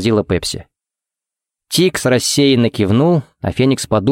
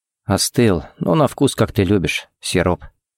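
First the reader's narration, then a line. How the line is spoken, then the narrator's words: Quiet remark. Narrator (Russian): заметил тихо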